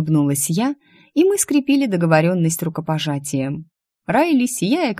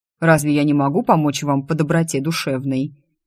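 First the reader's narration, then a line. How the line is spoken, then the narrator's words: Wry snort. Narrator (Russian): Я, хмыкнув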